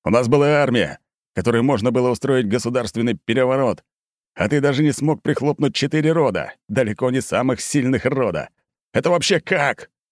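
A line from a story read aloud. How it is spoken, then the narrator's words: Hoarse yelling. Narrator (Russian): Быков орал, срывая глотку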